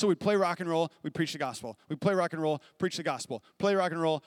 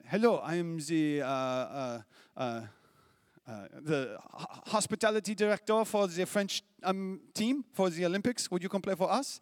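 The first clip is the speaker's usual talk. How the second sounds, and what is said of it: Put-on French accent. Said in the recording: “this is my French accent.”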